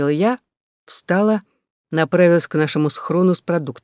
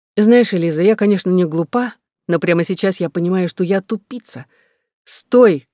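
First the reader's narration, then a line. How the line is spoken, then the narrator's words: Shouted after someone. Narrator (Russian): крикнула она мне в спину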